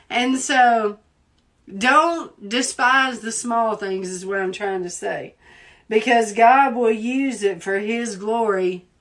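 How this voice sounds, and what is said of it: Southern American accent. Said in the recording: “my accent. Because I speak so Southern... People love my accent.”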